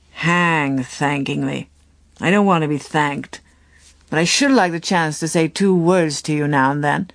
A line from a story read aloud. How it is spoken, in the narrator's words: he grumbled